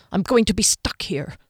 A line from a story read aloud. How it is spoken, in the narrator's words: she grumbled